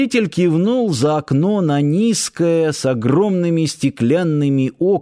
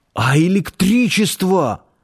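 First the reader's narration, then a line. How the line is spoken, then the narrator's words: Exclamation. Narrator (Russian): воскликнул Нанос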